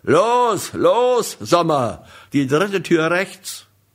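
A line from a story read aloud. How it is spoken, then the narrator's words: Loud military bellow. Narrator (German): so militärisch laut brüllen würde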